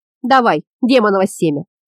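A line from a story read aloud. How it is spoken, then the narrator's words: Good-natured creaky voice. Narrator (Russian): Добродушно проскрипела Йока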